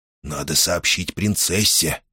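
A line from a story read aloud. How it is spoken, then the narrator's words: Hesitant whisper. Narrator (Russian): прошептал, наконец, Флейш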